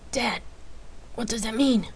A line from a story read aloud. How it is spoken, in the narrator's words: Jace asked, confused and anxiously